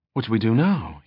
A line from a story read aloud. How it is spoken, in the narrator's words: He asked anxiously